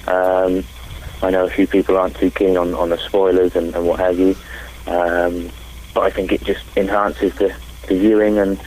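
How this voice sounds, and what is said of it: English accent. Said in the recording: “I love the English accent.”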